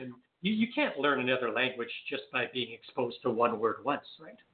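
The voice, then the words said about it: Slight French Canadian accent. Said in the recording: “I'm French Canadian. You might be able to tell from my little bit of an accent.”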